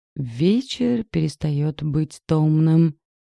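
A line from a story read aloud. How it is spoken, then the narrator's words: Sepulchral foreboding voice. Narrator (Russian): предрекла за могильным голосом Надюха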